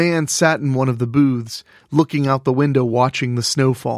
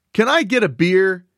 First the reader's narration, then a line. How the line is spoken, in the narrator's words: Ollie hollered